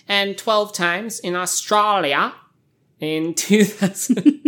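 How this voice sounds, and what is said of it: Bad put-on Australian accent. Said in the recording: “Yeah, terrible Australian accent.”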